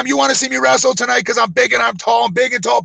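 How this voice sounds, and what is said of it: Screaming wrestling promo voice. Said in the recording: “I used to scream the whole fucking time ... I'm yelling into the microphone. Wait, why am I yelling?”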